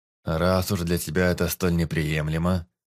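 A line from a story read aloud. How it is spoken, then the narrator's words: Wry snort. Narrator (Russian): хмыкнул Тир Велден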